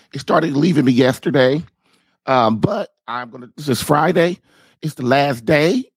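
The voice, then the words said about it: Hoarse, nearly gone voice. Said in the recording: “my voice is almost gone ... forgive my horrid voice ... I guess I just have a serious, serious cold”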